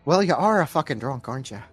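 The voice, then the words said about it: Put-on Irish accent. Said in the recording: “She's not Irish. I don't know why I did that accent.”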